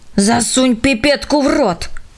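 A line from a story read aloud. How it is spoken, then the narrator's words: Hissed. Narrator (Russian): шипела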